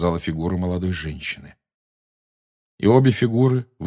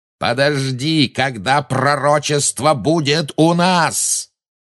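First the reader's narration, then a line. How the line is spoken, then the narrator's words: Roaring. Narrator (Russian): взревел Малфой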